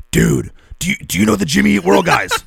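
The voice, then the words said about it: Imitates another person's voice. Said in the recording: “That's my Chuck impression.”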